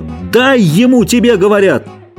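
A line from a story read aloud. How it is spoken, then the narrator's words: Repeated shout. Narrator (Russian): Джордж крикнул снова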